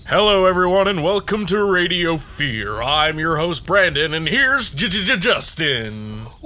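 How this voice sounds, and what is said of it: Radio announcer voice. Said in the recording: “This is my radio voice. It really works.”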